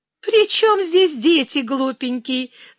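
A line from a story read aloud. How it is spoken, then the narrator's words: Young woman laughing. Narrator (Russian): засмеялась девица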